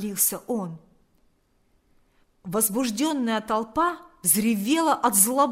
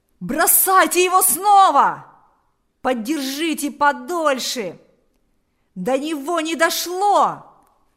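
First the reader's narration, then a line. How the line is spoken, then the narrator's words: Several voices shouting. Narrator (Russian): закричали несколько голосов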